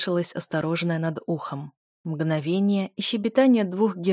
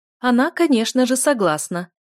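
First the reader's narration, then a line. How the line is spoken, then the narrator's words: Loud laughter. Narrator (Russian): захохотала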